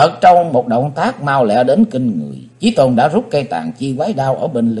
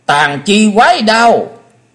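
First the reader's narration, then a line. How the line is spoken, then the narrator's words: Shrill shout. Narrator (Vietnamese): Ngọc Diệm Diêm Bà hét lên lanh lảnh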